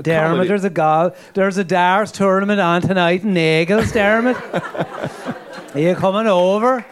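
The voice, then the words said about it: Put-on Wicklow Irish accent. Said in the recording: “6 years in Wicklow, and you got the accent, and it's great.”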